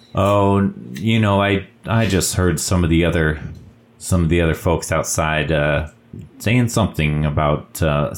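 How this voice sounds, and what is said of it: Put-on character accent. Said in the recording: “I'm like dipping into this accent.”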